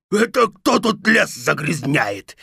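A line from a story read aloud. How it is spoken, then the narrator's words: Wolf howling in pain. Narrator (Russian): взвыл волк от боли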